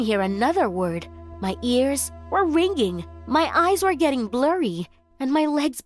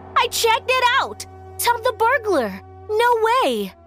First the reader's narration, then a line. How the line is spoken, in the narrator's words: She was screaming